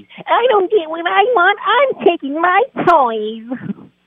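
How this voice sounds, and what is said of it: Imitates another person's voice. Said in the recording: “That was a pretty good impression right there”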